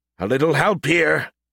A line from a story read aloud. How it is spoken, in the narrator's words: he grunted